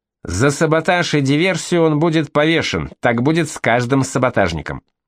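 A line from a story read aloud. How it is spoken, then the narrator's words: Officer's shout. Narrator (Russian): офицер СС крикнул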